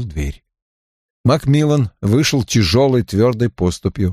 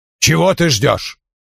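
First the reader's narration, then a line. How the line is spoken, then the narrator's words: Barked. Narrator (Russian): он рявкнул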